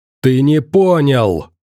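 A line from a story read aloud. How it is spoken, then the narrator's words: Sudden roar. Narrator (Russian): вдруг взревел Бородач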